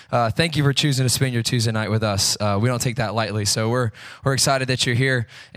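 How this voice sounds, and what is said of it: Rough, deep, unwell-sounding voice. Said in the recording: “forgive my voice this tonight. I feel a little under the weather, so hopefully I don't sound like nails on a chalkboard ... sorry for my voice ... It's manly.”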